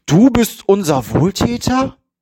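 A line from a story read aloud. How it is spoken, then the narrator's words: Shout. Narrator (German): rief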